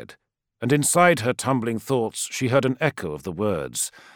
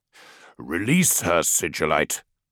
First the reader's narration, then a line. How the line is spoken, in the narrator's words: growled Dawn